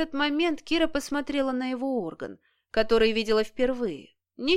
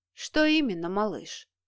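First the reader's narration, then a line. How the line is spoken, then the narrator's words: Tender question. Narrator (Russian): ласково спросил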